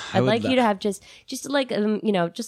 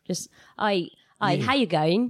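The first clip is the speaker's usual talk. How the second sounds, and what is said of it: Slight put-on Australian accent. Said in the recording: “come back with an Australian accent via Madonna ... just a little slight ... Just a little bit like that”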